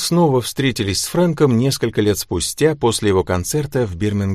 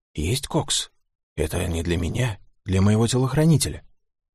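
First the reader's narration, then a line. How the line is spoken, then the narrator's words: Whisper in the ear. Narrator (Russian): Фрэнк шепнул на ухо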